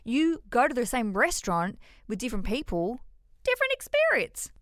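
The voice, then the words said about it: High-pitched voice. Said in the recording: “there's that high voice again. I don't know why I'm doing that so much today.”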